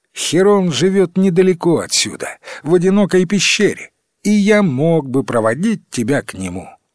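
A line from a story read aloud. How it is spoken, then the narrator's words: Joyful exclamation. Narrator (Russian): Фол радостно воскликнул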